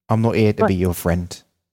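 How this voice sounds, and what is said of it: Imitates a character's accent. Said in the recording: “Let's do that at the accent again.”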